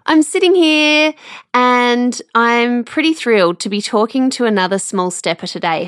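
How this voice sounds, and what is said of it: Slightly nasal, congested voice. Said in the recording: “Been a little bit snotty, so if I sound a bit nasally today”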